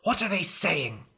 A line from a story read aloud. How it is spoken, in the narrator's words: hissed the king